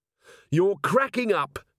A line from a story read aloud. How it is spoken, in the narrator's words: she shouted